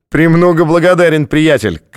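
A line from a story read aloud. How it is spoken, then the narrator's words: Shouting after someone. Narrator (Russian): крикнул тот ему вслед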